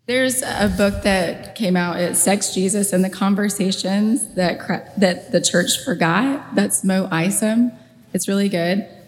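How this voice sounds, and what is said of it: Hoarse, strained voice. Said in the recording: “my voice is gone. Sounds horrible.”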